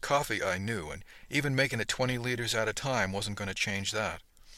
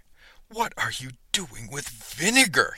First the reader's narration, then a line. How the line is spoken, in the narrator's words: he spluttered